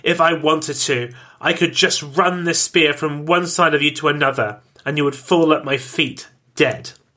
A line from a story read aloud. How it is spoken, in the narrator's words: He spat